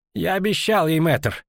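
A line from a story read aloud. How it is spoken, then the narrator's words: Muttered. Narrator (Russian): Буркнула маячившая перед ней тень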